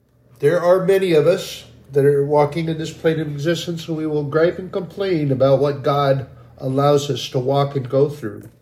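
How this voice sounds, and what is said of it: Emotional, choked-up voice. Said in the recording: “I'm getting a little emotional here. No, I'm getting a lot emotional here.”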